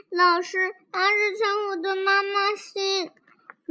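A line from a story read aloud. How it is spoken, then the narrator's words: Crying child. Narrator (Chinese): 小苹小朋友哭着说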